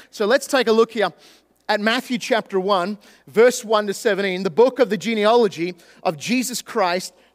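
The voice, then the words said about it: Australian accent. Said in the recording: “this speech impediment called an Australian accent”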